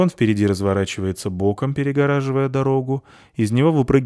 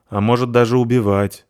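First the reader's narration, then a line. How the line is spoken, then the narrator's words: Gloomy. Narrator (Russian): мрачно добавляет Зверушка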